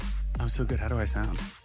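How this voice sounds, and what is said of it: Whispery voice. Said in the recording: “Are you a little whispery? ... Yeah, you sound whispery.”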